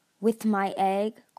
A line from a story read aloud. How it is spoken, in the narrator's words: Coral growled